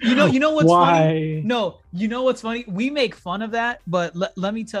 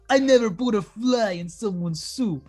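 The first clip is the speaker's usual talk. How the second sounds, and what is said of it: Put-on Brooklyn accent. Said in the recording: “That's the Brooklyn accent.”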